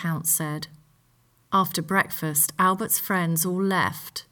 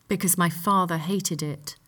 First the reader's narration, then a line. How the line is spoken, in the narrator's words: Albert replied